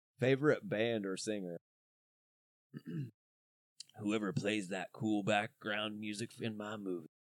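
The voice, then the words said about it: Imitates another person's voice. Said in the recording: “my best Val Venus impersonation ... Oh, this is terrible.”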